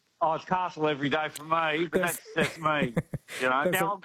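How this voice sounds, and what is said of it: Usual voice. Nothing is said of it.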